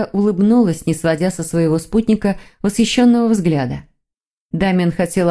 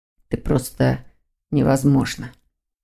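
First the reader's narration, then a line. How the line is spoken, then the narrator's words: Whisper. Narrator (Russian): прошептал Лефевр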